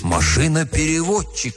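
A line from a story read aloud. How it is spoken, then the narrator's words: Exclamation. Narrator (Russian): воскликнул Оп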